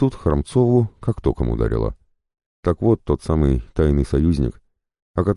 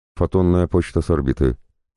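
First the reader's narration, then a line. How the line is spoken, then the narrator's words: Even machine tone, faster. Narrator (Russian): продолжал Алекс-3 тем же ровным тоном, но быстрее, словно даже машина ощущала, как сжимается время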